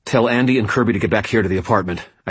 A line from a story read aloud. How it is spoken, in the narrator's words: I snapped at Georgia